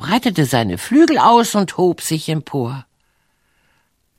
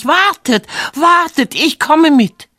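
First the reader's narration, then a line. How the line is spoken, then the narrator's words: Young gander shouting. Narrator (German): schrie der junge Gänserich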